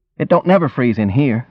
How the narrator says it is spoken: he said

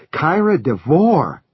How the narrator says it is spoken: Maddie cried, looking at John apprehensively

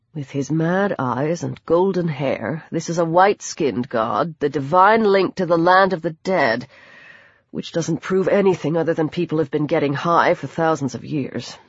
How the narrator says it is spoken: he muttered

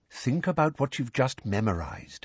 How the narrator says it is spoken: said Lupin quietly

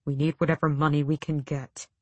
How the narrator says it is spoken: Sam said quietly

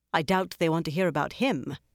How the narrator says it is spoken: Cadswain said sharply

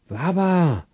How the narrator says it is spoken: He exclaimed in a shocked voice

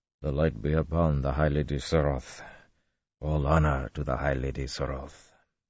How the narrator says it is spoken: murmuring

